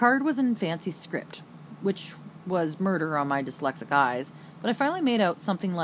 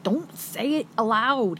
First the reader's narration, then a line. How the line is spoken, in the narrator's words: yelped